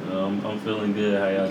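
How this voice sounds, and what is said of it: Deep, low put-on sexy voice. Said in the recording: “You're talking way too low. Like, why are you trying to hit the sexy voice? ... That was a very Hulk Hogan, brother.”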